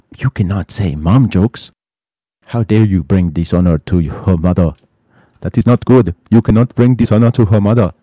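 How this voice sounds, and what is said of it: Exaggerated put-on foreign accent. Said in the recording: “Why was she talking with an Asian accent? ... That was my best Ugandan accent”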